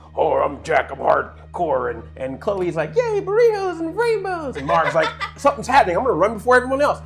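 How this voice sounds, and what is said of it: Imitates teammates' voices. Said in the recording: “that was a good impression of me!”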